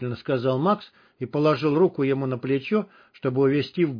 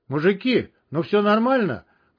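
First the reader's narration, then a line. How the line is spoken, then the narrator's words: Shouting after them. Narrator (Russian): крикнул им вдогонку Кнопа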